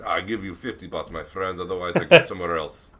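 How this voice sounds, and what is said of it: Put-on Russian or Latvian accent. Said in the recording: “in the Russian accent or Latvian accent”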